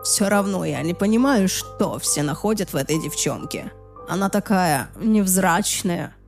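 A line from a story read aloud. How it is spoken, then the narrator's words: Muttering. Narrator (Russian): пробормотал он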